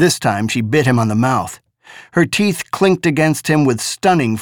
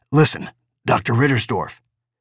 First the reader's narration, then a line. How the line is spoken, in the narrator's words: Baines grunted